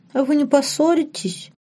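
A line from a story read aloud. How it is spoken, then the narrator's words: Whiny question. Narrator (Russian): хнычущим голосом спросила Лорен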